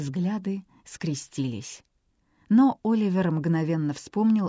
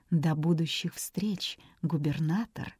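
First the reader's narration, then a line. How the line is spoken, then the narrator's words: Promising whisper. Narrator (Russian): Сильва многообещающе шепнула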